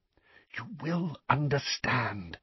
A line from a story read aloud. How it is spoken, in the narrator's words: whispered Dumbledore